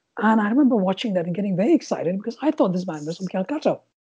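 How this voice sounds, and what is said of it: Indian English accent, Welsh-sounding. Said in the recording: “my accent as well, which is influenced by growing up in Calcutta, can often be mistaken for a Welsh English accent”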